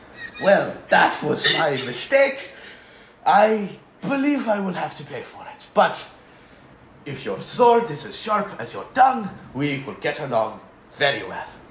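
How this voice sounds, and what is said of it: Middle-aged Frenchman character voice. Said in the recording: “the sort of middle-aged human Frenchman kneels down and goes ... I know you think my voice is stupid”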